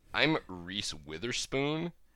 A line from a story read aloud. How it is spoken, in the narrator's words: And this girl looked at her and sneered